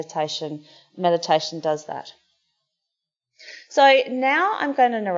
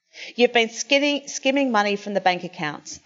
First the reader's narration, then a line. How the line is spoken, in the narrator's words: Alice snapped